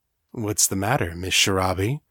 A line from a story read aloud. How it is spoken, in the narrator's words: he asked, his voice velvet smooth and cultured like a spy movie villain